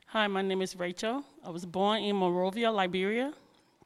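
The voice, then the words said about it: Liberian accent. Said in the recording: “I'm fighting to keep my accent. I'm still fighting on it. ... Everybody thought I was from Jamaica ... everybody thought I was from Louisiana”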